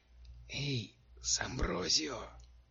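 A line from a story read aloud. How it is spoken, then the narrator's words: Whisper. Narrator (Russian): шепнула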